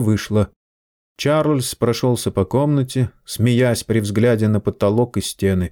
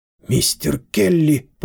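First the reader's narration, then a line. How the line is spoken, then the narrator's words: Hoarse rasp. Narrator (Russian): прохрипела Лидия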